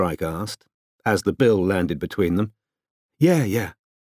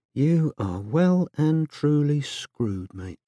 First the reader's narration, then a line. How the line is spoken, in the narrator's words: said happily under his breath